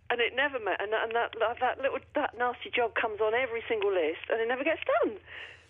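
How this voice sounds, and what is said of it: Mixed London accent, sounds Australian. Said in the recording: “are you Australian? ... You've got an accent. It sounded like you've got an accent that had been kind of buried over time ... I'm from London originally ... I've got a bit of a mixed-up accent by now”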